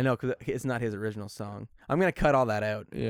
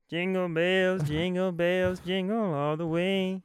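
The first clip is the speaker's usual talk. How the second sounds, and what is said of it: Sung imitation of another person's voice. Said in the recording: “I do this super good Charlie Crockett impression ... Even the same impression that you always do”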